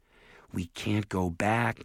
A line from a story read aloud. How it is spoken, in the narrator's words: Jared said nervously